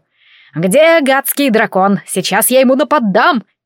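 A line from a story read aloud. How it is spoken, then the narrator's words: Barked. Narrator (Russian): рявкнула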